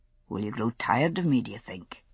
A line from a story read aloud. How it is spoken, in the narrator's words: He murmured